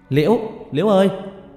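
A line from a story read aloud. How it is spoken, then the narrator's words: Repeated desperate shout. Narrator (Vietnamese): Lần thứ 4 tôi hét lên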